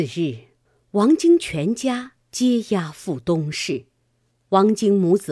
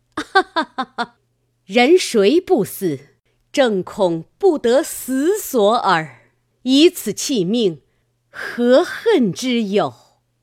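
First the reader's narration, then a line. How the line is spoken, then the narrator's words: Hearty laughter. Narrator (Chinese): 母大笑曰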